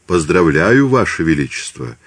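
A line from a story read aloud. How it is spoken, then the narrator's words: Plain. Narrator (Russian): сказал Димсдаль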